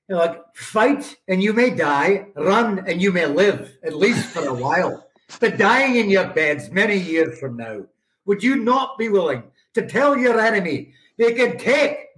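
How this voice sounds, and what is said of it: Put-on Scottish accent. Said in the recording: “I'm actually a Scotsman. I can put on the accent at will ... a little bit of the Scottish”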